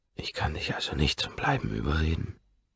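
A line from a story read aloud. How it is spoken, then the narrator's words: Close intimate whisper. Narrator (German): flüstere ich dicht an ihrem Mund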